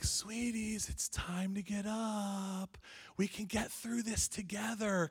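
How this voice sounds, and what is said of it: Sweet, gentle coaxing dad voice. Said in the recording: “I've got this sweet dad voice”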